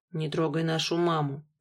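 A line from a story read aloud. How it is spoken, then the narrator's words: Mumbled. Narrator (Russian): пробормотал я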